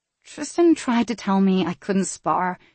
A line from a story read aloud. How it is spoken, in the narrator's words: she mumbled, hoping to elicit a response